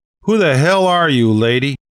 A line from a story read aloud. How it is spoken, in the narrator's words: Someone near the front yelled